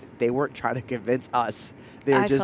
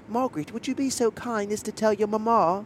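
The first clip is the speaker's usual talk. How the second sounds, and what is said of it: Fake British accent. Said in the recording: “trying to convince us they were British ... the accent”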